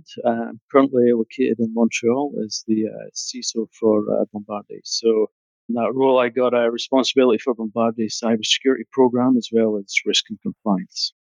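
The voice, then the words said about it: Scottish accent. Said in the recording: “You could probably tell by the accent, I'm not from North America, originally from Scotland.”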